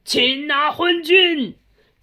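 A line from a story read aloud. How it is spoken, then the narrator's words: Crowd shouting from all sides. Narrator (Chinese): 四面八方喊声大起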